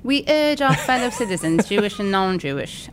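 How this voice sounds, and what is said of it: Put-on British accent. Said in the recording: “do it again, but in a British accent”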